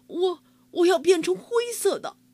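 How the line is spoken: Crying out. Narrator (Chinese): 哈瓦尔叫道

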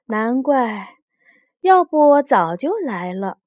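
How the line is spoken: Annoyed cold sneer. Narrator (Chinese): 黛玉气恼，冷笑道

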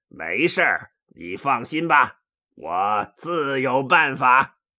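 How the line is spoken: Laughing. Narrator (Chinese): 曹操笑着说

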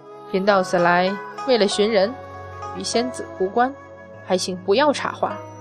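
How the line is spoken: Deep, stern voice. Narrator (Chinese): 太乙真人略一拧眉，沉声

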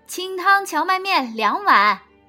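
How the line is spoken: Calling out to counter. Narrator (Chinese): 老板娘对柜台喊道

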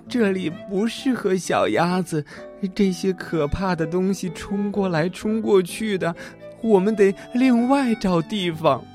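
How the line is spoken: Breathless. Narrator (Chinese): 他喘了一会儿才说

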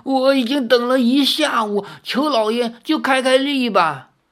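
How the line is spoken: Old man pleading. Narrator (Chinese): 有一名衣衫破旧的老头……哀求道

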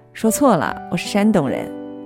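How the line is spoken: Laughing. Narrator (Chinese): 他笑

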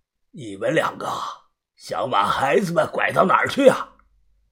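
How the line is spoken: Hoarse voice. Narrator (Chinese): 他声音沙哑的说道

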